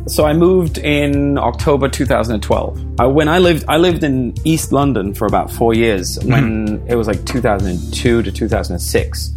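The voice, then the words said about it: Blended Danish, English and American accent. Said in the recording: “this amalgamated accent”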